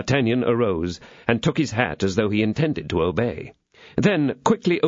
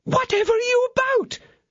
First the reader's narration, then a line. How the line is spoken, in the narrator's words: exclaimed Kitty